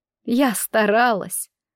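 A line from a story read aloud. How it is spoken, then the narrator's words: Sobbing. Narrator (Russian): Дара всхлипнула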